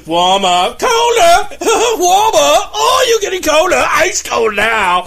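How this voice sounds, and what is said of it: Robot voice with English accent. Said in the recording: “Was that an English accent? ... It was an English accent.”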